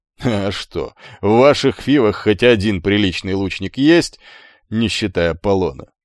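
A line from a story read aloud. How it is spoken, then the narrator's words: Chuckling laugh. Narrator (Russian): хохотнул иврит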